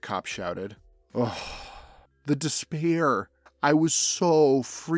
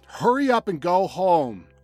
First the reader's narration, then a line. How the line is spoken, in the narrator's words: The cop shouted again